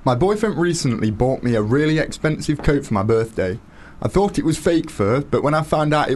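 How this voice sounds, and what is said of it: Nottingham English accent. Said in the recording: “his very sexy Nottingham accent”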